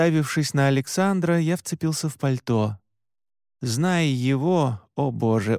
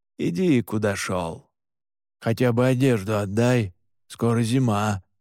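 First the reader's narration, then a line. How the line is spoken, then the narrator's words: Grumbling. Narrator (Russian): проворчал Джин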